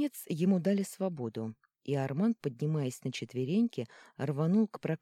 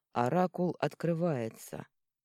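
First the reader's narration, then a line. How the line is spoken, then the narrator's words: Dejected. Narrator (Russian): упавшим голосом сообщил Меркл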